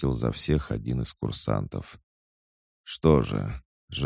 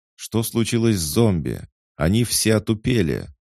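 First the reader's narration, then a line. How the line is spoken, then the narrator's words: Familiar voice shouting out. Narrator (Russian): выкрикнул знакомый голос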